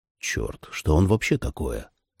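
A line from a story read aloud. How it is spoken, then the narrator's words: Quiet whisper in ear. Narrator (Russian): тихо прошептал я на ухо Джули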